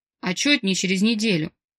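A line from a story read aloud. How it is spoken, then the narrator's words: Resigned snort. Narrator (Russian): обреченно хмыкнул Марк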